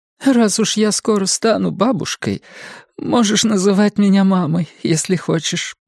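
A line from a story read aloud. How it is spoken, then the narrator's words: Tearful. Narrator (Russian): предложила сквозь слезы Пэт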